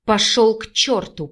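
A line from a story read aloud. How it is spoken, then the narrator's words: Growled. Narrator (Russian): прорычала Виктория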